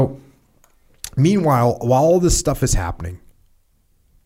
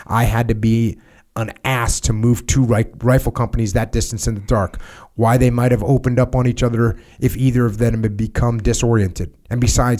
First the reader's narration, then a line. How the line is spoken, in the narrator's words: he said